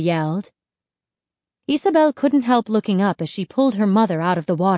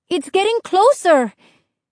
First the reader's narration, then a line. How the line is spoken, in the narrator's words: Isabel cried